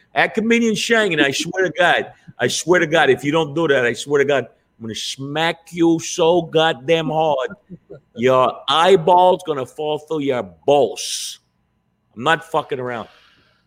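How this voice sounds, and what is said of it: Goodfellas-style mobster tough-guy voice. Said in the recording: “Why did my voice change? ... I've been watching a lot of Goodfellas ... That was a really good imitation.”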